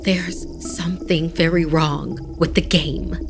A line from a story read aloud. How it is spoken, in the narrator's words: she said in a hushed tone